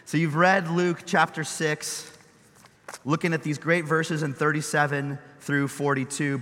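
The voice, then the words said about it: Hoarse, worn-out voice. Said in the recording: “Forgive my voice. I've been yelling a lot at people. I don't know why, but my voice is gone.”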